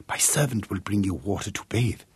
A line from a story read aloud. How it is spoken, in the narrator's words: whispered